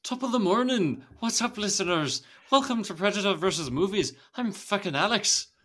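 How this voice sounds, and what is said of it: Bad put-on Irish accent. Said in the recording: “Irish accent is just when you can't speak ... So bad”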